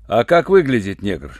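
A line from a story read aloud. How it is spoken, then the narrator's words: Rude question. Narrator (Russian): грубо спросил Руальд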